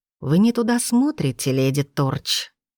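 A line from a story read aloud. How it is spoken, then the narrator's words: Silky, almost tender. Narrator (Russian): вкрадчиво, почти нежно произнес начальник департамента имперского сыска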